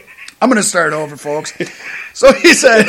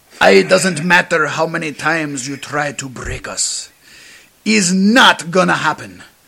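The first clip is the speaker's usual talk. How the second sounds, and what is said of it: Put-on Spanish accent drifting toward Russian. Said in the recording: “You're going to add the accent, too. ... This is turning into a Russian accent. ... that's my Spanish, Russian”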